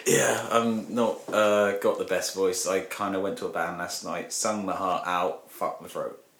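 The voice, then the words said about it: Raspy voice. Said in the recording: “raspy voice”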